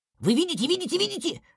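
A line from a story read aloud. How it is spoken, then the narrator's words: Big man rapid chatter. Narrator (Russian): тараторил здоровяк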